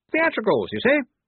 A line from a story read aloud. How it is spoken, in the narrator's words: he said brightly